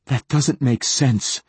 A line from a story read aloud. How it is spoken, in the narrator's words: said Hoyt, still gasping for air